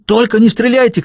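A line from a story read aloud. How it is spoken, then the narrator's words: Shout. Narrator (Russian): крикнул он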